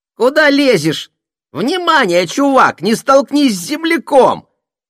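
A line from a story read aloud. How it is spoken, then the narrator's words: Cartoonish device squeak. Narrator (Russian): По мультяшному запищало устройство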